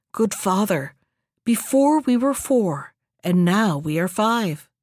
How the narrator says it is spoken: the youth whispered to the hermit

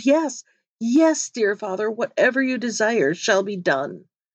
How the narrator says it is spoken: so overwhelmed with grief that he could think of nothing but his father, and exclaimed

